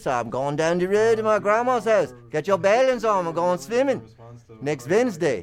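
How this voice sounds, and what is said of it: Put-on Bermudian accent. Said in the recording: “Now you're speaking Bermudian ... It almost sounds, reminds me of like South African. ... it's an odd kind of accent”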